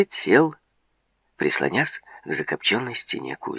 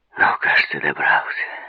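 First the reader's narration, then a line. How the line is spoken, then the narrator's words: Relieved exhale. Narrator (Russian): выдохнул он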